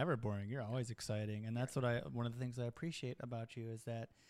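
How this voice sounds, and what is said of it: Usual voice. Nothing is said of it.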